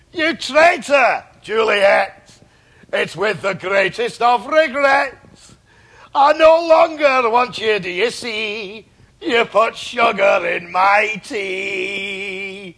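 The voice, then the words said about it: Put-on accent. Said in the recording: “you did it in an accent that's not your own”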